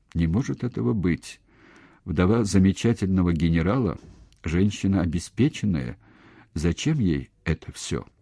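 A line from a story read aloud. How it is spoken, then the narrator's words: Even, level voice. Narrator (Russian): ровным голосом, произнесла Инна Матвеевна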